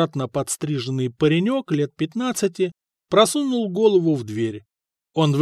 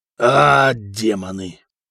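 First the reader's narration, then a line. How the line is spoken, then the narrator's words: Growling. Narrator (Russian): прорычал Сигурд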